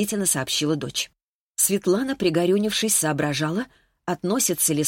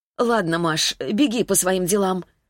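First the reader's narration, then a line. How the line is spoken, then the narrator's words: Sighing. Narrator (Russian): снова вздохнула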